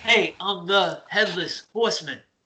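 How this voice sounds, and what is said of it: Imitates another person's voice. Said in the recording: “my Christopher Walken impersonation ... That was not good.”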